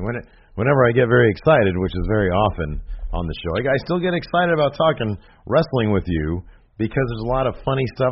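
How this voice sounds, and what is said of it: Sick, strained voice. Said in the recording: “your throat's bothering you ... it's my throat ... my throat won't let me ... Whenever I get sick, my voice leaves me ... lose your voice”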